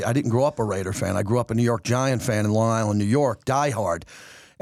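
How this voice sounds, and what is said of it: Thick New York accent. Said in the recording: “that thick G-man, accent”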